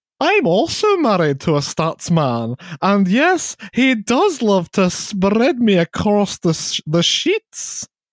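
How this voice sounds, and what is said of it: Posh Edinburgh accent. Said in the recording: “I have a posh Edinburgh accent. Should I read out like that?”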